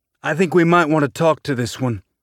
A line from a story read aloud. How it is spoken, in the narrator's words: Burton said